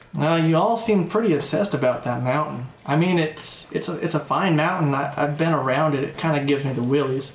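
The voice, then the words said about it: Put-on Southern accent. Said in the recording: “Now she's Southern.”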